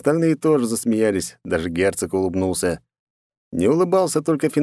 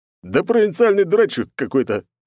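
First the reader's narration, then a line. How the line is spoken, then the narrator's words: Booming laugh, big man. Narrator (Russian): гулко засмеялся здоровяк Зарубов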